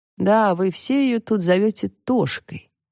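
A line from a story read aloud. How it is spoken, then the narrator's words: Sad. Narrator (Russian): печально произнес он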